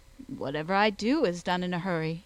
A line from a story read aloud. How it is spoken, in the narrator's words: replied he